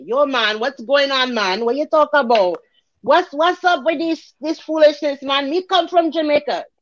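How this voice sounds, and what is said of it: Unconvincing put-on Jamaican accent. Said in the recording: “This is my Jamaican accent ... Do I sound Jamaican to you? ... you sound whiter than rice”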